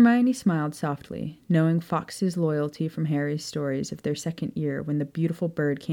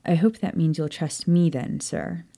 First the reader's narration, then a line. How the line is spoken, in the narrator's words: said quietly, her nerves aflutter